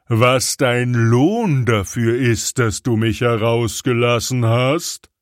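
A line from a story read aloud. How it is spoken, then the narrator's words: Terrible, frightening shout. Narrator (German): rief er mit einer fürchterlichen Stimme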